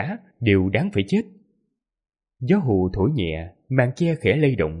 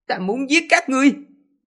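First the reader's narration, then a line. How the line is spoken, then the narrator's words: Low growl. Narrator (Vietnamese): Hoành Mục Lập Nhân gầm nhẹ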